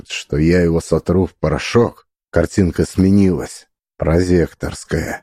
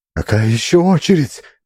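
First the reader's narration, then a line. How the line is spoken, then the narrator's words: Shout. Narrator (Russian): закричала Лиса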